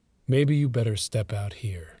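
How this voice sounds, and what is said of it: Flatter, different voice. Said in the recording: “in a different voice. It was a little flatter, as if the heat was finally getting to him.”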